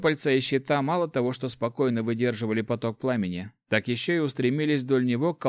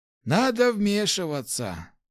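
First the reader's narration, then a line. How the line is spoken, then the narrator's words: Sigh. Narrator (Russian): вздохнул Хорд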